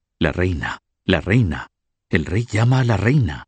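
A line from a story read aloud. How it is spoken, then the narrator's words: Whispered. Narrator (Spanish): Alguien susurró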